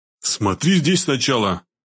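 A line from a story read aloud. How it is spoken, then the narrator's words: Booming drone. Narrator (Russian): прогудел он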